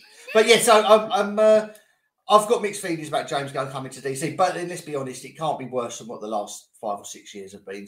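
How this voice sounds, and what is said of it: Sick voice with sore throat. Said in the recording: “I've had this man flu, and it's got worse... I've lost all my sense of taste and smell as well now... You can hear it in my voice. I'm still not 100%. Still got this dry cough and this sore throat”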